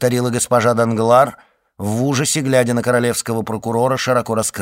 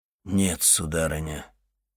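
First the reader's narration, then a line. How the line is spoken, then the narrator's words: Muffled, hollow voice. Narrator (Russian): глухо промолвил Вильфор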